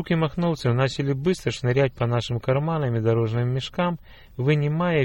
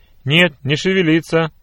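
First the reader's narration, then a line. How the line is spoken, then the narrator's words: Menacing shout, horseman. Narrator (Russian): грозно прокричал один из всадников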